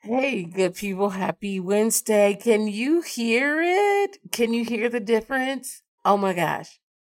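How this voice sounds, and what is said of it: Slightly hoarse voice. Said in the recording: “there's still some hoarseness there”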